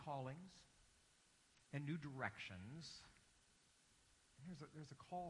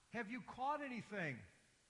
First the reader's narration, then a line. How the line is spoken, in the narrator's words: he yells out